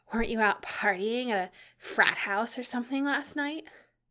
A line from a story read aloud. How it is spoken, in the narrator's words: Enid said, between panting breaths